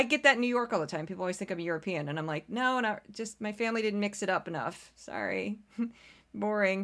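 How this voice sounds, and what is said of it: Usual voice. Nothing is said of it.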